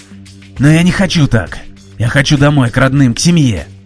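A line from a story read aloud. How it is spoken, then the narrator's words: Tearful shout. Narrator (Russian): закричал Дмитрий, чувствуя, как слезы покатились по его щекам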